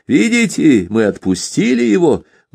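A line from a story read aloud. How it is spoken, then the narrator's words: Loud boastful shout. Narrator (Russian): Громко и хвастливо крикнул один из чеченцев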